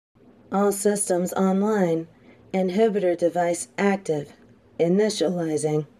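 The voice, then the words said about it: Robotic voice. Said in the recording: “My voice sounds so cool, too. I love how robotic it sounds.”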